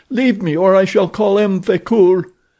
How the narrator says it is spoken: cried

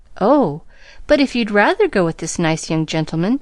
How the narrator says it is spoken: began Pollyanna anxiously

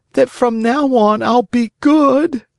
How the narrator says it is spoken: answered the Marionette, sobbing

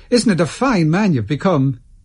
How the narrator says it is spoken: cried an old woman

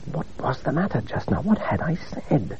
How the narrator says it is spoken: whispered

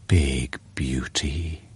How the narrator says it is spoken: murmured again

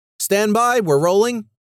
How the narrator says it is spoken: shouted out

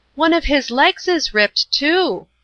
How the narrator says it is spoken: exclaimed

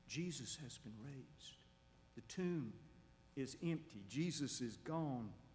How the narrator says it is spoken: whispers

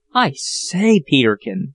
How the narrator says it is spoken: cried Jack in a hoarse whisper

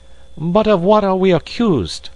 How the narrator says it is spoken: asked Passepartout impatiently

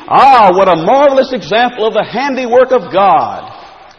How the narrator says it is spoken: The preacher exclaimed

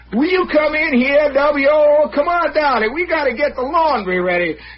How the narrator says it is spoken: she keep hollering

